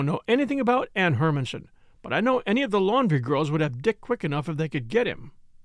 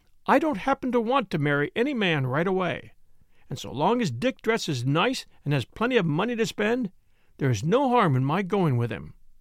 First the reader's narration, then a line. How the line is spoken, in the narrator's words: Lena answered curtly